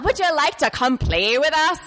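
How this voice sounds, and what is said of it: Attempted Welsh accent, sounds leprechaun-like. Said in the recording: “I'm gonna try to do a Welsh accent ... a creepy gypsy leprechaun”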